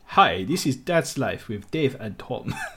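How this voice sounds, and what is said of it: Attempted Romanian accent. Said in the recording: “in a Romanian accent ... That's quite good. ... That was almost Chinese, actually”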